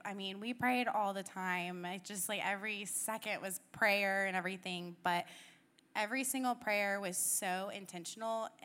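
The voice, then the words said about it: Congested voice from a cold. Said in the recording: “I have a cold, and so I sound awful.”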